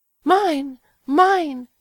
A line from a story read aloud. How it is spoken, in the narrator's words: she cried